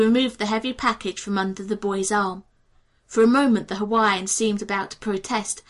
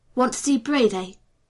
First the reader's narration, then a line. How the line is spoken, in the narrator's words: he began in a threatening tone